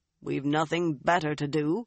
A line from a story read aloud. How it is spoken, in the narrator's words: Rhaegon said dryly